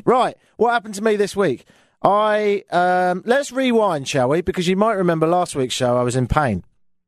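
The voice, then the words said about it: British accent, like Oliver Twist character. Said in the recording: “I know I sound like some sort of character from Oliver Twist ... you just have to get used to the accent.”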